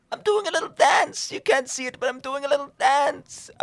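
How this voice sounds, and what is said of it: Impression of 'the Woker' character. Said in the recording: “How was my impression? ... since I donned the mask of the Woker”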